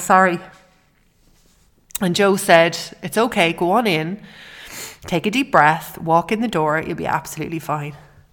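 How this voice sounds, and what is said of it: Emotional, voice breaking. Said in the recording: “I'm getting emotional.”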